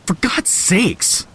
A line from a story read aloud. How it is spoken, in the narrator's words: I blurted